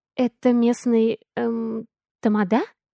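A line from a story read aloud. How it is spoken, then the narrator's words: Very quiet, cautious. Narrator (Russian): Очень тихо, осторожно спросила я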